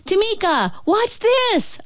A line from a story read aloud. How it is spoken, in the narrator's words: I shout